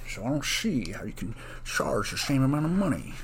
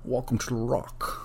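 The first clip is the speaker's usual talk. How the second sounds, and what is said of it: Bad Sean Connery impression. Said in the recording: “a really bad Sean Connery impression. I feel like I used to be better at it ... I don't even know what that accent is I keep doing there. It's like a mix of like an old, 30s”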